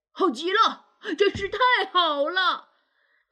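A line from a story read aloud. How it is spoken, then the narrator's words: Excited shout. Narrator (Chinese): 他大叫着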